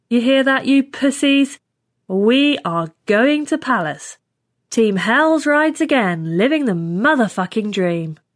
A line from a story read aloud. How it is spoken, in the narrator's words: said loudly